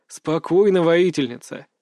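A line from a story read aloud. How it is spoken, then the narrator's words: Laughing. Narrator (Russian): Я рассмеялся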